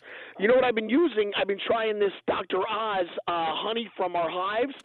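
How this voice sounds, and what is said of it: Hoarse, worn-out voice. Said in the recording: “My voice is shot, too. ... you've sort of made a career with a shot voice ... when my voice gets bad, it's even worse”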